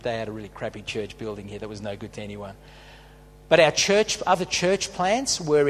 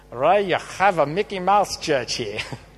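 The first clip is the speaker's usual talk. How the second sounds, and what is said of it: Very bad German accent. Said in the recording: “It's a very bad German accent.”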